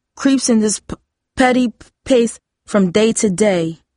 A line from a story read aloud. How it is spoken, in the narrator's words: Hakeem stammered